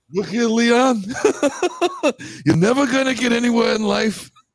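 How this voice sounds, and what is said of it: Eddie Murphy's old Jewish barber impression. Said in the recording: “Old Eddie Murphy Jew in Coming to America at the Barbershop.”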